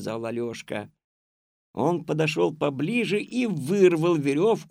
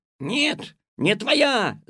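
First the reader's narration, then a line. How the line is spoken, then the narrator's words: Shouted. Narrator (Russian): закричал Синяк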